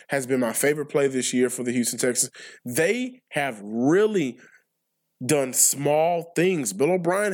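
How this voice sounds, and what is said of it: Voice affected by a cold. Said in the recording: “my voice sounds a little, I don't know, whatever. I am battling a cold.”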